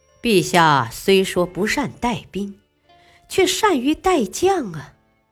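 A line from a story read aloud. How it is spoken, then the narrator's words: Sighing. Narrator (Chinese): 韩信不禁叹了口气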